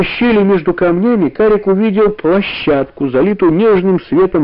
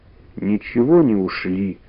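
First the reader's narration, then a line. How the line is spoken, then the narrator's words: Glum, dejected. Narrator (Russian): уныло сказал Карик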